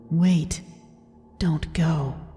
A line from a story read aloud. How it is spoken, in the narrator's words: as if someone had whispered to me